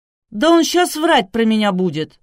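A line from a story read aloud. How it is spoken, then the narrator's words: Indignant girl's outcry. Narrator (Russian): с возмущением выкрикнула девушка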